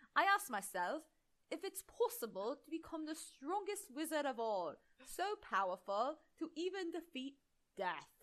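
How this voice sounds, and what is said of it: Poor attempt at British accent. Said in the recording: “Clearly, I cannot do a British accent.”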